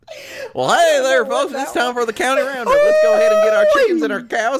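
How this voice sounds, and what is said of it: Put-on country cowboy accent. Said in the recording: “I don't know where that accent came from, but it was a mistake”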